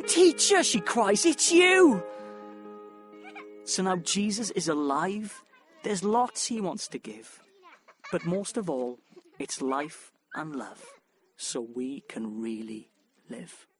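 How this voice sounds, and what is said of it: Welsh accent. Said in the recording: “how much better the scripture sounds read with a Welsh accent”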